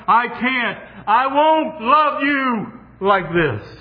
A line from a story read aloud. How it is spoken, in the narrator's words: will you shout above that and say to Him